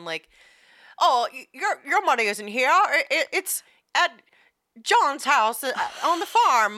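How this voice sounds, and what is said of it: Imitates another person's voice. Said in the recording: “That was pretty good. ... doing a Jimmy Stewart impression.”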